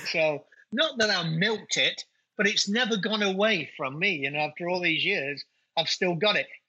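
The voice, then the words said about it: English accent. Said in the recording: “you and myself have got an English accent ... They just love the English accent ... they think I have a North American accent”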